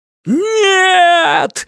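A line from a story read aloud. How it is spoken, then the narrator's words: Man's howl. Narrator (Russian): взвыл темный человек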